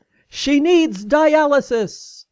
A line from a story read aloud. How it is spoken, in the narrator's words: announcing in a loud voice